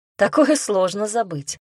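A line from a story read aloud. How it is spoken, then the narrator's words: Snorting. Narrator (Russian): хмыкнул я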